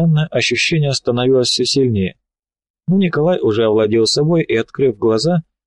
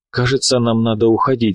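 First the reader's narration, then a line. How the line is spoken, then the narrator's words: Sighing. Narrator (Russian): вздохнул Лунин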